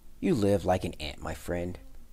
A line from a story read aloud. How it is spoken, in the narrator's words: he said